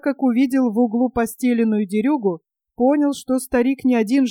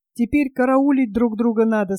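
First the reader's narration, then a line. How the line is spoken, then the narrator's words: Plain. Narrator (Russian): сказал он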